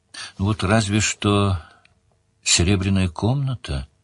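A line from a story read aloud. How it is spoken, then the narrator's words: Uncertain. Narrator (Russian): неуверенно сказала Делия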